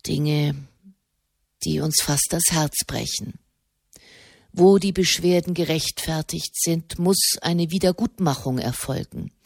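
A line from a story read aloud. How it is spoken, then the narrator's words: Soft. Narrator (German): sprach er leise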